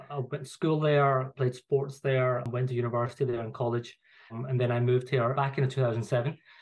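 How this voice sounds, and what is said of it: Glaswegian Scottish accent. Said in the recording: “you could probably tell from my accent, like, I'm not from London... I'm a Glaswegian”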